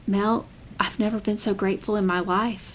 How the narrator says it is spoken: she whispered

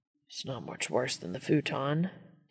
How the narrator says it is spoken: Dean mumbles into Castiel's shoulder

